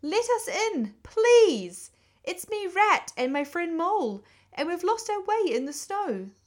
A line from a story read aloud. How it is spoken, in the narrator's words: cried the Rat